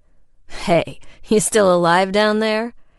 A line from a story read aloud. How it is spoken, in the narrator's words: his deep voice chuckled